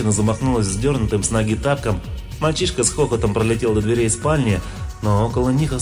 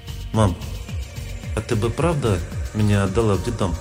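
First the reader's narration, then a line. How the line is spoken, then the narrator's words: Hesitant, quiet question. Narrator (Russian): Помедлил и спросил тихо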